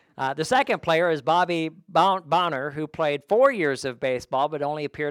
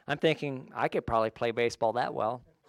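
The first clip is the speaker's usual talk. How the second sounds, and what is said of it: Sarcastic tone. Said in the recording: “That was sarcasm”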